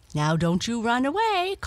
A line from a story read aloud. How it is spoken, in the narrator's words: called the lady, playfully